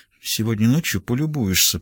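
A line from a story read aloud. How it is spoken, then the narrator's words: Playful whisper. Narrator (Russian): пообещала Сакс игривым шепотом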